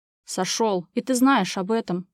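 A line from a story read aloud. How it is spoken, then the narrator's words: Hissing through teeth. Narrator (Russian): прошипел Иван сквозь зубы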